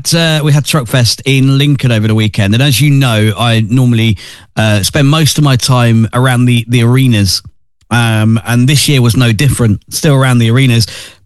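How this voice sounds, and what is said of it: Tired, slightly wavery voice. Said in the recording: “I'm tired. You probably hear my voice is a little bit wavery from the weekend”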